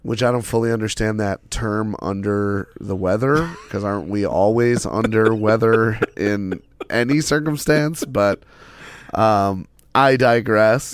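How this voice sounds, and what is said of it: Hoarse, fried sick voice. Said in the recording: “I am under the weather... my voice is a little fried, vocally fried.”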